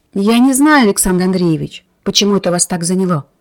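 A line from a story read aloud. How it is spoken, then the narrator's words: Restrained tone. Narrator (Russian): сказала она сдержанным тоном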